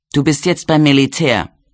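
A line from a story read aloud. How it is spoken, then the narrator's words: Angry retort. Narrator (German): gab Flick wütend zurück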